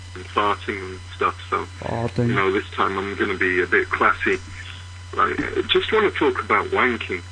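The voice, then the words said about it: English accent. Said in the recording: “That's my favorite English accent. I don't know what area of England that's from”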